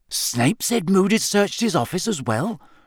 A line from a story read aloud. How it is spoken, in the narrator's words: Ron whispered, his eyes alight with interest